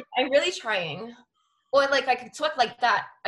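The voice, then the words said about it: Put-on American Valley accent. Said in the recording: “My American accents... Your American accent was definitely Cali Valley.”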